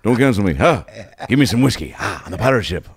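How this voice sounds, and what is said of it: Imitates another person's voice. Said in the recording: “Oh, that was Johnny Depp.”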